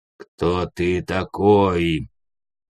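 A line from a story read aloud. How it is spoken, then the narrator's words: Menacing growl. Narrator (Russian): прорычал грозный голос старшего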